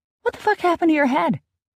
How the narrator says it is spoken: she cried out

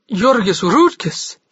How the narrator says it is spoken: she gasped

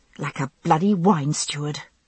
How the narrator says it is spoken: I thought crossly

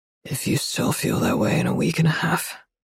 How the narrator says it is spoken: he says, his voice rough, splintering from restraint

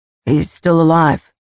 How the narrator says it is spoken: Cyan said

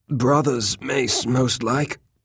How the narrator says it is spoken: Baylor said thickly

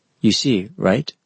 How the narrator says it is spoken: Sakamochi said

